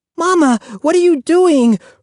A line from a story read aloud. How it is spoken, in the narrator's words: Ruthie cried